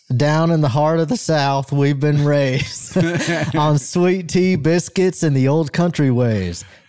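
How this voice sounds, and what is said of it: Southern country twang. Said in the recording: “Can you give me a twang with the reading, a little bit of a twang?”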